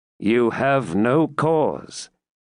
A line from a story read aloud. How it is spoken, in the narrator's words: answered Bois Guilbert gravely